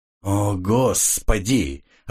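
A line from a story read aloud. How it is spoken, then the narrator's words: Irritated. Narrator (Russian): раздраженно произнес Истон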